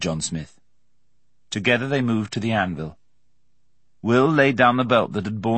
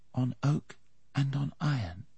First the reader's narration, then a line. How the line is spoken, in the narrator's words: he whispered